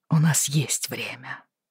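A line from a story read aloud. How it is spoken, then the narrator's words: Quiet. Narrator (Russian): тихо сказал он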